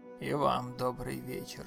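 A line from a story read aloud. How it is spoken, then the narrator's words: Muffled deep bass. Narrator (Russian): глухо пробасил полицейский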